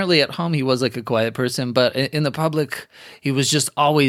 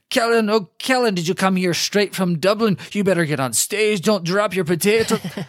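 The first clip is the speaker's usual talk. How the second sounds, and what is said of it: Robin Williams doing rapid Irish accent. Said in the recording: “Robin Williams ... goes into this Irish accent, which I can't do any accents at all. This will sound like Scottish and also no country whatsoever ... Just rapid fire.”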